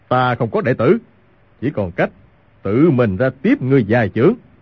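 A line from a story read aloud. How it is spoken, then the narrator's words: Angry shout. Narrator (Vietnamese): Hoàng Dược Sư, ông càng tức giận quát lên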